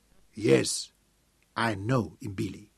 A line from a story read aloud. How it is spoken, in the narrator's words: he said